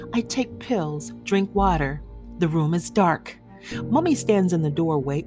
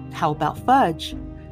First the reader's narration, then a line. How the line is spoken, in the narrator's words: Granddad laughs